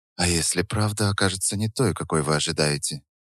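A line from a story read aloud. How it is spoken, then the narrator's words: Quiet question. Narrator (Russian): тихо спросила Наталья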